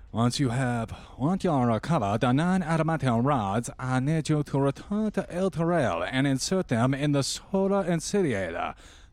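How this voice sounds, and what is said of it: Character voice, thick hard-to-understand accent. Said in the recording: “my extremely hard-to-understand accent ... ridiculous affectation”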